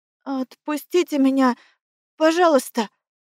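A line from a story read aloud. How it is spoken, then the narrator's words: Trembling, hopeless plea. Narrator (Russian): дрожащим голосом попросила, не слишком надеясь на успех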